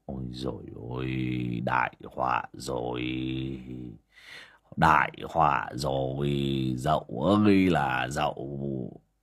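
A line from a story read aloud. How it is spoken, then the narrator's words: Dazed mutter. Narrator (Vietnamese): Biết chuyện bà Dậu mất tích, bác Vó đờ đẫn cả người mà lẩm bẩm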